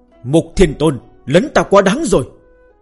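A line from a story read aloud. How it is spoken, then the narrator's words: Sudden anger. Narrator (Vietnamese): Hạo Thiên Đế không khỏi đột nhiên giận dữ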